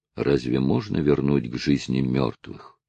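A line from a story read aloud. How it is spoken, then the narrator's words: Sad. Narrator (Russian): печально проговорил Натти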